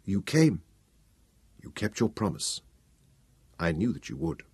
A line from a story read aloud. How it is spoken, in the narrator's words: Massara said softly and shyly in Egyptian